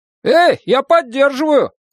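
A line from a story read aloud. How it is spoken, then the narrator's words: Shouting. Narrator (Russian): закричал Билл Скэнлон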